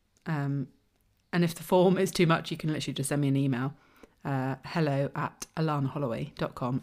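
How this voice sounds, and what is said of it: Husky, hoarse voice. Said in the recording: “you might be able to hear from my voice. I'm still getting over COVID ... Hope you don't mind the husk.”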